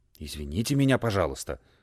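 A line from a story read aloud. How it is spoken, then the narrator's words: Flustered mumble. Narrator (Russian): пробормотал растерявшись Джельсомина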